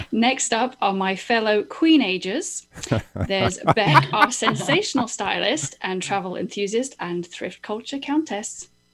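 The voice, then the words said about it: British accent. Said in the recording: “It's just my accent ... Brit transplant”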